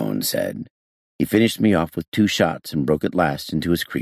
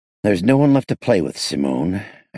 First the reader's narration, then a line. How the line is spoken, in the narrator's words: I said bitterly